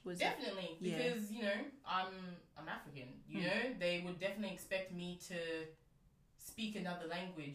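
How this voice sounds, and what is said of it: Australian accent. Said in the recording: “here, I'm here speaking in a very quote unquote Australian accent. ... they may say it's not as Australian.”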